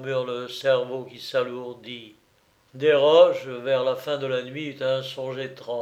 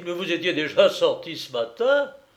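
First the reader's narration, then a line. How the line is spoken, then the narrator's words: Exclaimed. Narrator (French): s'écria-t-il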